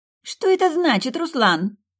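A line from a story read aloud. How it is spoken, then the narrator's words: Shrill squeal. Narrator (Russian): взвизгивает бывшая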